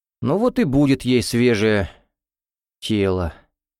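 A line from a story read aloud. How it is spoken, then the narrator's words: Sighing. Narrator (Russian): вздохнул Орлов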